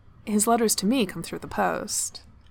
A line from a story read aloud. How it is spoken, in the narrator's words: Ludwig said dryly